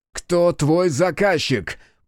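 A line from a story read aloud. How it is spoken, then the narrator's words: Growled. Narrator (Russian): прорычал Хитсу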